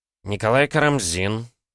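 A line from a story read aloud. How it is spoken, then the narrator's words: Hostile, through clenched teeth. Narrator (Russian): процедил Николай Михайлович, неприязненно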